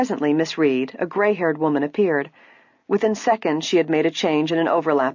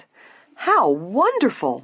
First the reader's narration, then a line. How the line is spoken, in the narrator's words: Nancy exclaimed